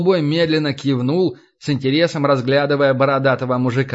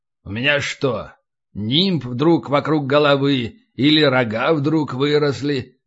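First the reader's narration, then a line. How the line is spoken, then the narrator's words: Plain question. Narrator (Russian): спросил Касьян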